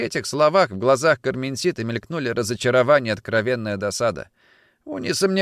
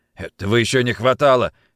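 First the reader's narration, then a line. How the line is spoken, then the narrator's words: General snorting. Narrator (Russian): хмыкнул генерал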